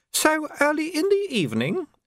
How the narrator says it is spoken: said madam, and laughed again

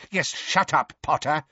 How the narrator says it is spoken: barked Fudge

